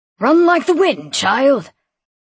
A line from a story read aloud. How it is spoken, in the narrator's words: he shouted